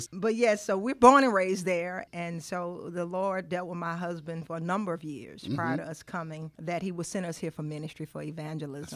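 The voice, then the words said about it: Southern US Louisiana accent. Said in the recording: “you're not from here. We can tell from your accent that you ain't from here ... originally from Baton Rouge, Louisiana”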